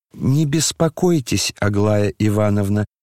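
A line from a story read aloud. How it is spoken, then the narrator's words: Calm reply. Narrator (Russian): спокойно отвечал Ипполит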